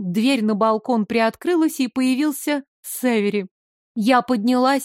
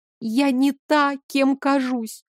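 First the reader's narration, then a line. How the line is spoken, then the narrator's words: Inward moan. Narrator (Russian): простонала мысленно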